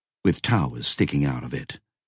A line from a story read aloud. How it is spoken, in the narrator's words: Roberta said evenly